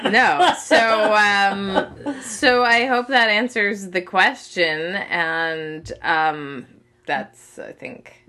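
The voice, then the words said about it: Congested, NPR-like voice. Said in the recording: “When you're congested, you sound like you're on NPR. ... she's got that NPR voice.”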